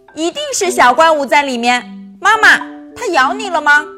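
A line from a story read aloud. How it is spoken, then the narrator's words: Shouting. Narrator (Chinese): 祖一大叫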